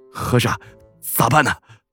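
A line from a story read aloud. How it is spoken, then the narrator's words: Trembling voice. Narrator (Chinese): 虎爷声音颤抖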